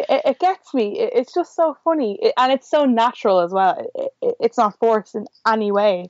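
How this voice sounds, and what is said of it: Usual voice. Nothing is said of it.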